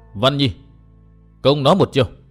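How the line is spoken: Hearty laughing. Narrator (Vietnamese): Bạch Phát Tiên Nương ha hả cười lớn một lúc rồi nói

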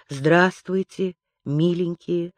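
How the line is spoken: Affectionate. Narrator (Russian): ласково отвечала она

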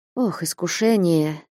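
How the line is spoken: Quiet. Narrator (Russian): тихонько промолвил Василий Борисович

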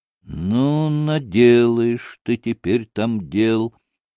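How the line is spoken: Muttering to himself. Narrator (Russian): пробормотал про себя Петр Ильич

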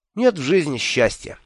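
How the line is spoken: Snorting. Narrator (Russian): фыркнул я

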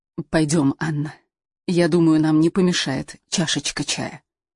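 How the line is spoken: Confiding whisper. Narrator (Russian): Луиза доверительно прошептала

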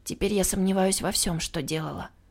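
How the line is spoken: Sighing. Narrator (Russian): вздохнула я

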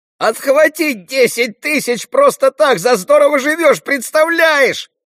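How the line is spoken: Yelling. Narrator (Russian): орал Рулли

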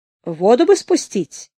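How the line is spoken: Uncertain older speaker. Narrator (Russian): неуверенно сказал старший

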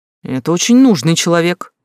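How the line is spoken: Exclaimed. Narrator (Russian): воскликнул Погорелов

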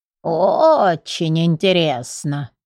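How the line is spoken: Old man's creaky voice. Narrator (Russian): старик проскрипел вновь

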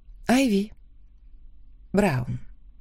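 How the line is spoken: Quiet, smiling. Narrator (Russian): тихо ответила я, улыбаясь

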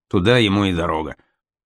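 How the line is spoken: Dismissive grumble. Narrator (Russian): Николай I, узнав о смерти Лермонтова, которого не терпел, якобы буркнул

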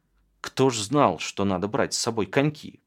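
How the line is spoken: Grumbling. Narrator (Russian): проворчала Галька

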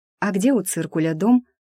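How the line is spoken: Timid babble. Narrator (Russian): робко пролепетала Маша

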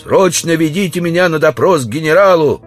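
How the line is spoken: Shouting. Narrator (Russian): закричал

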